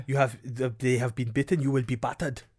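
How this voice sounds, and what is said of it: Bad stereotyped Welsh accent. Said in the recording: “It's like it's a stereotype. ... It's the worst Welsh accent ever.”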